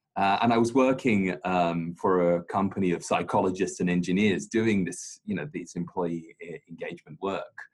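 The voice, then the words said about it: British accent with slight Australian twang. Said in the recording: “my strange British accent ... sometimes folks think I'm Australian ... I have this Aussie twang, but very British, born and raised in London”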